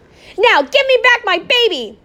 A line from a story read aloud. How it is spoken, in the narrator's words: Opal shouted